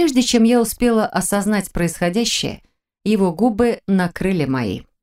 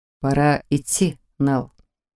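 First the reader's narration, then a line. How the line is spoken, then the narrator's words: Gentle reminder. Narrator (Russian): мягко напомнил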